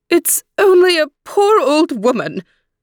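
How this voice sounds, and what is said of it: Squeaky old woman voice. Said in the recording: “squeaky voice”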